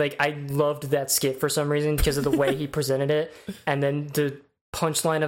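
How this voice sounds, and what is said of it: Usual voice. Nothing is said of it.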